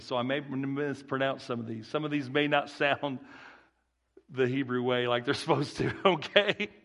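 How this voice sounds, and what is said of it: Rural Southern country accent. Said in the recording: “my little accent, my little country boy accent, red country boy”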